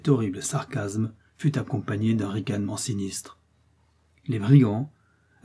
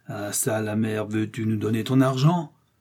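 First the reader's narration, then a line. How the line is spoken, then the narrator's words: Leader's thundering shout. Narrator (French): s'écrie le chef d'une voix tonnante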